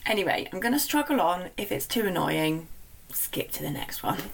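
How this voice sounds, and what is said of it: Slightly croaky voice. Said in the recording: “my slightly croaky voice ... It is a little bit croaky ... my voice is slightly suffering ... I don't always sound like this”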